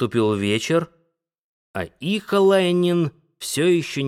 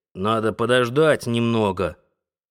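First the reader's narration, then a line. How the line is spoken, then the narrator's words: Old woman grumbling. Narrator (Russian): Старая работница Христина проворчала в ответ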